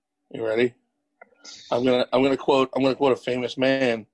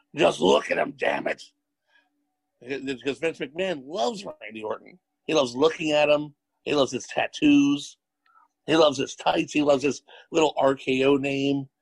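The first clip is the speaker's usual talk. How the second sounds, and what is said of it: Imitates another person's voice. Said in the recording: “I'm gonna do his impression. Just imagine I'm Vince McMahon.”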